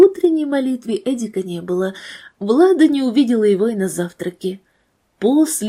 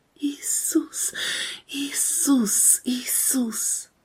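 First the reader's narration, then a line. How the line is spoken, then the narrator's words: Desperate whisper. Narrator (Russian): губы шептали отчаянно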